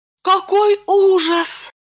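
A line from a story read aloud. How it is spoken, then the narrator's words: Pleading. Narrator (Russian): Липочка побледнела и взмолилась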